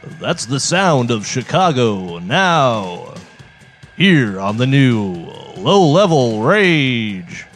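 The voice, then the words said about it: Radio announcer voice. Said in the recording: “this is my announcer voice ... I feel like it's not consistent. It's like varying a bit.”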